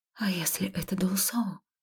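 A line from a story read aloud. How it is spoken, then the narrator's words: Quiet breathy. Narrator (Russian): тихо выдохнула я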